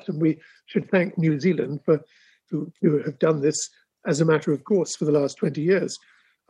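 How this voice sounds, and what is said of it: English accent. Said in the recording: “you are from England, as is obvious from your accent”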